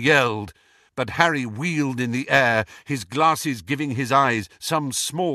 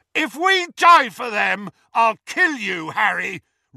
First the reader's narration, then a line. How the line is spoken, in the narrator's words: roared Ron's voice